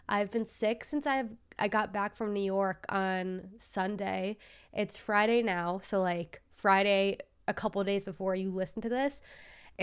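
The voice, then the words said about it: Congested, sick-sounding voice. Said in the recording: “I sound so congested and just awful and my voice is just insufferable to listen to, it's because I'm very sick”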